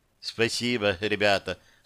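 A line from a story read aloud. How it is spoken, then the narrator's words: Plain. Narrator (Russian): сказала Яна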